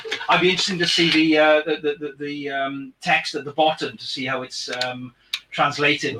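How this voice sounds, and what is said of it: Welsh accent. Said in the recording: “my Welsh accent”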